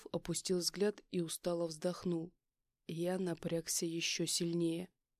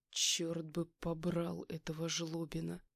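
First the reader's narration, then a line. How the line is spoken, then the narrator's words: Through clenched teeth. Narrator (Russian): Процедил я сквозь зубы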